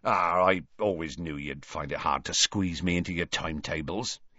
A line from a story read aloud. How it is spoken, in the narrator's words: said gruffly